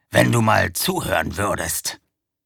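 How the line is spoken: Growling werewolf. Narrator (German): knurrte der Werwolf

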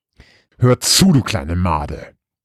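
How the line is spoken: Deep growl. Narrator (German): knurrte sie ihren Bruder mit tiefer Stimme an

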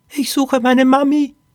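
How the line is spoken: Squeaky voice. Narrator (German): piepste Poppy

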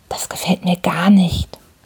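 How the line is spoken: Whisper in ear. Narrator (German): flüsterte mir ins Ohr

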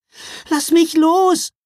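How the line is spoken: Calling out. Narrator (German): rief Mila

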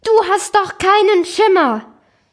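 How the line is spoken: Called out. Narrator (German): das soziale Drama rief

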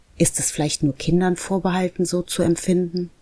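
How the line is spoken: Plain question. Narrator (German): fragte er

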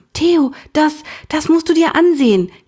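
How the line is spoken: Gasping. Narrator (German): japste sie

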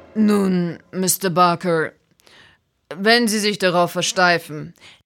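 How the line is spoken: Calm. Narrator (German): sagte der Inspektor ruhig

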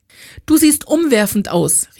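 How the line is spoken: Called through closed car door. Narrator (German): rief sie Ella durch die immer noch geschlossene Autotür zu

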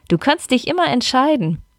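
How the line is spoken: Laughing. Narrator (German): lachte Pia auf

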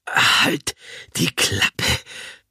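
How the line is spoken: Panting old woman. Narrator (German): keucht Oma von Stibitz

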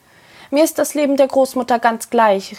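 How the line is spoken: Calling out. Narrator (German): rief Androscha ihm zu

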